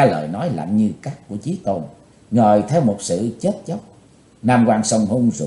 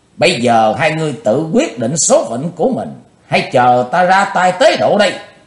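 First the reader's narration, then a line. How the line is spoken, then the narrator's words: Loud shout. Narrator (Vietnamese): Chí Tôn hét lớn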